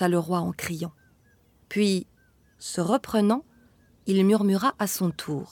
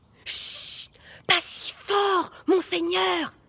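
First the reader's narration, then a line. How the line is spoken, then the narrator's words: Frightened whisper. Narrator (French): chuchota l'homme apeuré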